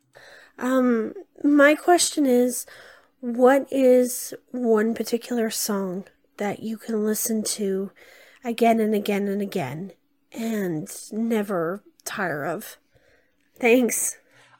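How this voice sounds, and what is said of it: Hoarse, congested voice from a cold. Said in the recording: “weird voice, but I've got a bit of a cold ... I would kiss the frog in your throat”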